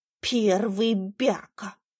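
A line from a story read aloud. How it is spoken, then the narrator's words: Snorting. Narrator (Russian): фыркнул банан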